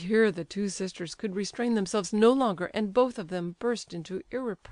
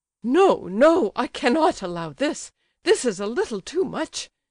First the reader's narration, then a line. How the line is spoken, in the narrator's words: cried Lizabetha Prokofievna, exploding with rage